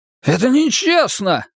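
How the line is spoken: Wail. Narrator (Russian): взвыл он

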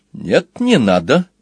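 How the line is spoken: Cheerful objection. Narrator (Russian): бодро возразил ящик

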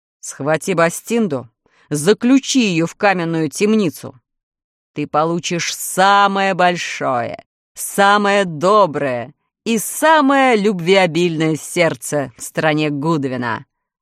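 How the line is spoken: Monster's growl. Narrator (Russian): прорычало чудовище

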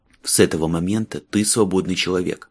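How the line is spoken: Quiet and quick. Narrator (Russian): Майлз говорил тихо и быстро

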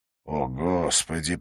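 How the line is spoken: Through gritted teeth. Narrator (Russian): процедил Уоткинс

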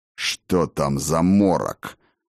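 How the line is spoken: Muttered. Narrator (Russian): пробормотал Гудмунд

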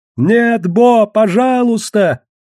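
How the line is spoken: Old woman shouting from crowd. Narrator (Russian): крикнула старуха из толпы

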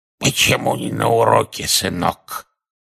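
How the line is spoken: Hoarse wheeze. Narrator (Russian): Одна из них прохрипела

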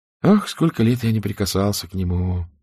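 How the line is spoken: Mumble. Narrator (Russian): пробормотал он

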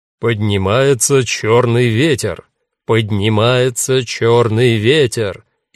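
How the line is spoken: Laughing, loud announcer declamation. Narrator (Russian): Он рассмеялся и громко продекламировал хорошо поставленным дикторским голосом

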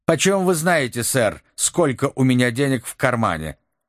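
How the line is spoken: Angry young man. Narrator (Russian): сердито ответил молодой человек

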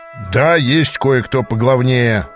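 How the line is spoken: Growled. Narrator (Russian): зарычал он

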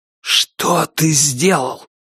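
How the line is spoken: Hissed. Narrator (Russian): прошипел он

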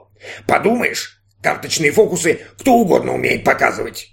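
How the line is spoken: Robot grumbling. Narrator (Russian): пробурчал робот

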